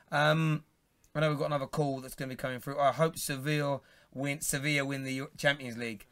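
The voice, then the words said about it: Strained, failing voice. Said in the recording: “My voice is gone.”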